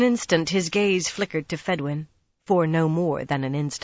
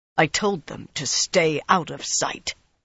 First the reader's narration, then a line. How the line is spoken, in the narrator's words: Rand said in a harsh voice